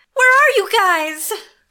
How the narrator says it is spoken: Odessa cried out

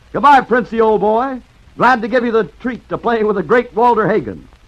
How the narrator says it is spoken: he grinned cheerfully ... shouted

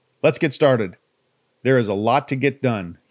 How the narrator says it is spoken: he barked

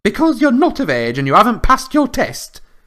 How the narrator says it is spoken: snapped Mrs

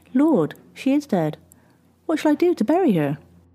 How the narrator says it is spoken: Burdock calmly exclaimed

